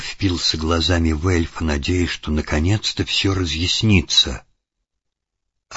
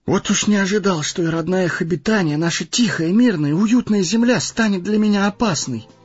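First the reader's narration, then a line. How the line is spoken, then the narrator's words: Exclaiming. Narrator (Russian): воскликнул Фродо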